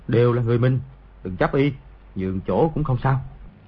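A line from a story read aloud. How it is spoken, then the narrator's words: Soft. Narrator (Vietnamese): khẽ nói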